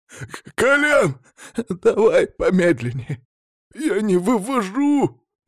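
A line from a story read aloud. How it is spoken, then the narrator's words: Pleading. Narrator (Russian): взмолился Федя Осипов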